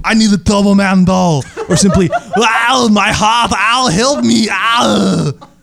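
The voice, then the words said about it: Imitates another person's voice. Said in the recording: “an excuse for me to do my Arnold accent”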